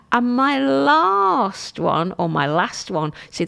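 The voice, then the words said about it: London accent on 'last'. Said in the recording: “that's my London accent when I keep saying last. My default is last instead of last.”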